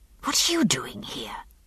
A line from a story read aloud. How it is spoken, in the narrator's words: I hissed